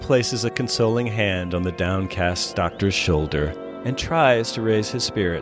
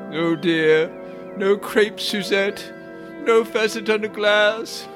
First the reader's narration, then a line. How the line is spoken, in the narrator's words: Smith, who slumps down on a stool, moaning